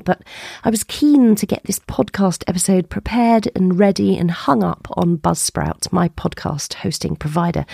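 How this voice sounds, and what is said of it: Unwell, breathless voice. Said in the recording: “my voice is not sounding quite right, and I'm also still quite breathless”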